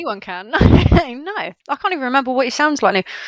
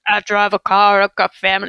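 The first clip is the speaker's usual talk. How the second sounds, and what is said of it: Imitates another person's voice. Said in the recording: “I can't do his voice. Can you do it?”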